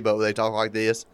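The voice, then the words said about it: Bad put-on Southern accent. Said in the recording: “that's a bad Southern accent for somebody lives in the South.”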